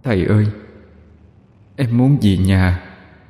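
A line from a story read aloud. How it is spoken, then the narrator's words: Faint trembling voice. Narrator (Vietnamese): Một giọng run run cất lên, nhẹ như gió thoảng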